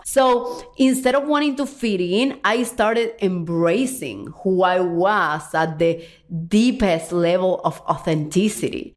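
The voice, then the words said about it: Strong foreign accent. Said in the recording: “I have a strong accent”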